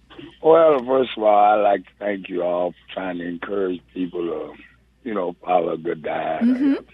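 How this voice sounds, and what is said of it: Rich, radio-quality speaking voice. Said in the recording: “you have a great voice ... have a good radio voice”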